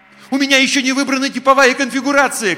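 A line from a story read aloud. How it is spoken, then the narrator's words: Desperate shout. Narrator (Russian): крикнул я в отчаянии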